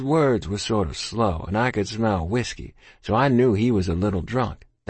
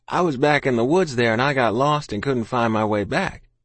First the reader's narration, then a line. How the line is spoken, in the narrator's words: I said